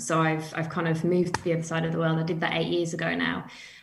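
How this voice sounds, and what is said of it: British accent. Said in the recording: “as you can tell from my accent, I'm from the UK”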